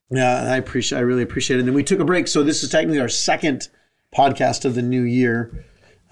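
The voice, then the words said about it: Voice still not fully recovered. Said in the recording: “I lost my voice and it's still not back fully... when my voice is normal, I sound just like her, but I'm, I'm not right now.”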